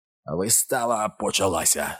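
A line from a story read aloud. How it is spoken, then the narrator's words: Growled. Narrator (Ukrainian): загарчав клоун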